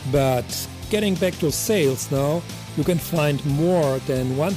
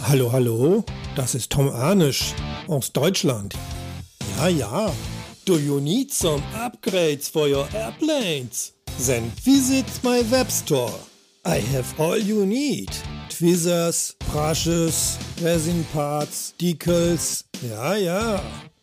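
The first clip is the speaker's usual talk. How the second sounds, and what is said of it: Exaggerated German accent. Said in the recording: “This is how German accent sounds.”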